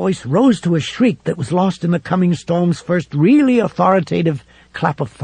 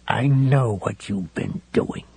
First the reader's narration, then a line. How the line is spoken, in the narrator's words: he whispered to Heavyset